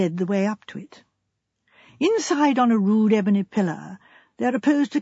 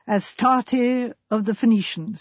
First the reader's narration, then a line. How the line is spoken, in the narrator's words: said Hayden